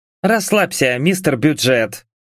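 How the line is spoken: Scoffing snort. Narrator (Russian): фыркнула Энджи

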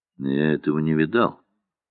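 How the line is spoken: Dry, bored. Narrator (Russian): сухо и скучно сказал Андрей Андреевич

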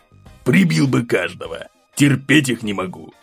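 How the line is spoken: Snort. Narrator (Russian): фыркнул Сергей Константинович

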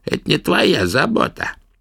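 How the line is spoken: Creaky old woman's voice. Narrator (Russian): проскрипел старуха

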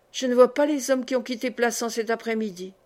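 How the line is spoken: Murmured. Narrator (French): murmura-t-il

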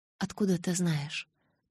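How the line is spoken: Anxious whisper. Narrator (Russian): прошептала, чувствуя, что сердце вот-вот вырвется из груди

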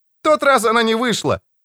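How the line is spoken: Cheerful shout. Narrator (Russian): весело прокричал он ему

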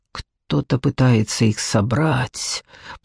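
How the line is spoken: King through gritted teeth. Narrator (Russian): процедил король

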